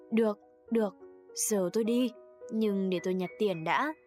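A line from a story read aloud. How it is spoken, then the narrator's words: Half-hearted laugh. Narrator (Vietnamese): Tôi cười như không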